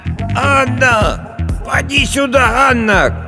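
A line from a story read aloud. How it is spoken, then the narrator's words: Shouting old woman. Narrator (Russian): кричала старая Агафья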